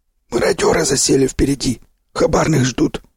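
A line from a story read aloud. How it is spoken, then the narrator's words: Wheezy rasp. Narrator (Russian): просипел Сиплый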